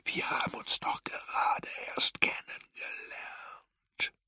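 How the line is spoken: Whisper. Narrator (German): flüsterte er

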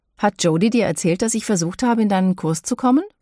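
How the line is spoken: Plain. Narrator (German): fragte Tracy

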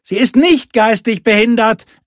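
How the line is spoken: Boy calling from inside. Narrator (German): rief der Junge irgendwo im Hütteninneren

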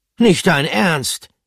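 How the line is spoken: Calling out. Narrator (German): rief Pomme de Terre

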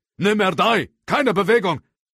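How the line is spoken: Older man calling out. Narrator (German): der ältere Agent rief

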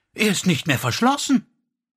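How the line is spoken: Calling out. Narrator (German): rief sie

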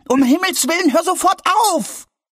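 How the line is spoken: Shouted. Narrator (German): schrie Albi

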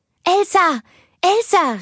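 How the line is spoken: Calling out. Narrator (German): rief

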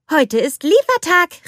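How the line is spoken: Called out. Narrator (German): rief Anna

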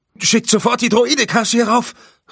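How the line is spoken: Calling out. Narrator (German): rief er

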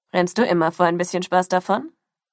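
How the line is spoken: Plain. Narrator (German): fragte ein anderer

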